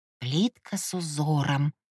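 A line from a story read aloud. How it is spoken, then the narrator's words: Mumbling, mimicking voice. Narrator (Russian): продолжала мямлить я, передразнивая его голос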